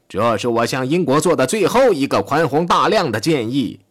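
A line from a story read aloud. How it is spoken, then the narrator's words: Shouting. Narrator (Chinese): 他喊道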